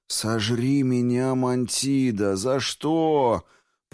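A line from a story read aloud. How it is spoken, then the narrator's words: Groaning. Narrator (Russian): Простонал Квинт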